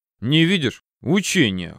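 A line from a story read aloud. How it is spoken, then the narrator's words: Snorting grunt. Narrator (Russian): хмыкнул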